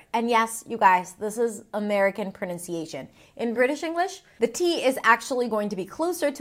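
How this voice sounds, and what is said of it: Usual voice. Nothing is said of it.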